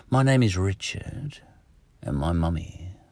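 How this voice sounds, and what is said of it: Put-on Australian accent. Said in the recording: “I'm an American, actually, putting on an Australian accent.”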